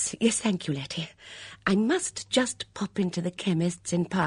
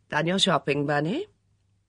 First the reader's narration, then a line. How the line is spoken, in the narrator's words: Her tone was indulgent once more